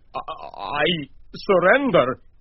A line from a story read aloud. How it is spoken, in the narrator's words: he squeaked